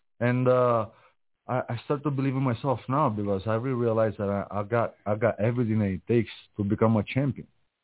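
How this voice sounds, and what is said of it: Noticeable foreign accent. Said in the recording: “So I hear an accent.”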